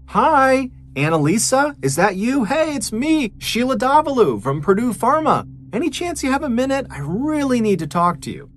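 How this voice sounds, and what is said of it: Overly friendly, sweet calling voice. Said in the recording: “called out in her friendliest voice”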